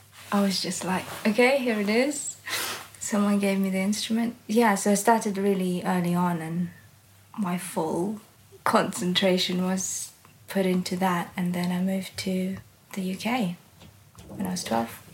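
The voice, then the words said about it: British accent. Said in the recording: “a fully British accent we're hearing”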